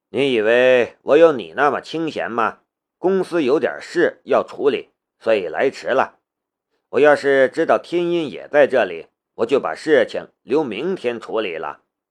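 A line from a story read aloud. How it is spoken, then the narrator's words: Faint smile. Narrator (Chinese): 古可武淡淡的笑了一下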